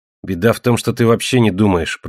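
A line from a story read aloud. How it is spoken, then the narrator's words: Muttered. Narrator (Russian): пробормотал Тимми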